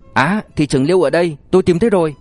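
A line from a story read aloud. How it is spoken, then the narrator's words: Sudden excited, anxious shout. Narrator (Vietnamese): Đột nhiên không biết ai đó hét lớn, giọng nói tràn đầy kích động, mừng rỡ xen lẫn lo lắng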